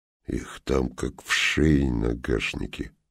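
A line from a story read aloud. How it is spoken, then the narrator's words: Mumbling. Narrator (Russian): пробормотал Суржиков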